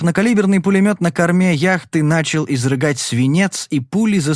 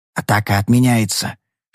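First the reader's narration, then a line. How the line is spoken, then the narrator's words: Whisper. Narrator (Russian): шепнул я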